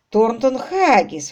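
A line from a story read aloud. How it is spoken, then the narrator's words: Exclaiming. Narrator (Russian): воскликнул Квиллер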